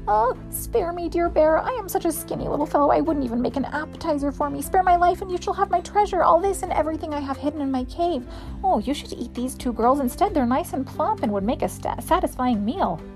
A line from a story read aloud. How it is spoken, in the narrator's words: very frightened, he whined